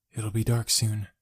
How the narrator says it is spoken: whispered, almost to myself

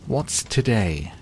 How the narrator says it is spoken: cried Scrooge, calling downward to a boy in Sunday clothes

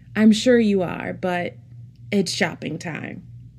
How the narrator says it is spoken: laughed and replied

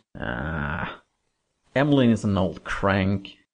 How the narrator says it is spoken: growled Thomas

